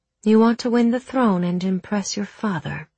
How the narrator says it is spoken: she asked Roth

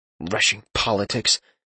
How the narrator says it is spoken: Talion mumbled

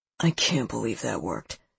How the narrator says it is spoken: Seth murmurs

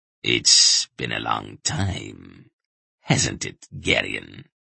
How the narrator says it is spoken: Brill said quietly, with an ugly chuckle

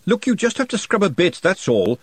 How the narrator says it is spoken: she snapped

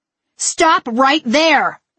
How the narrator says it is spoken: I yelled at my parents

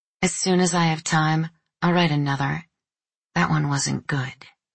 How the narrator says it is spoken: She said grimly

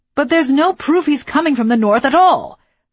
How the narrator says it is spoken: Marquez shouted

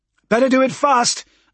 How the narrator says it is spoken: I shouted

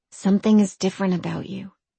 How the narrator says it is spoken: whispered

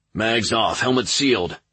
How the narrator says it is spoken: Corporal Eliason barked over his helmet comms

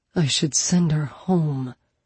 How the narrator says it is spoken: he muttered to Penny

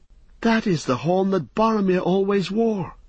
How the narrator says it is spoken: cried Pippin

